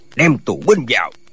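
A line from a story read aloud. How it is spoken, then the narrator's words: Barked command. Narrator (Vietnamese): Tượng Quan Dân quát lên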